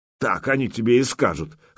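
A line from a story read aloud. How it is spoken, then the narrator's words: Snorting. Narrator (Russian): хмыкнул Ярош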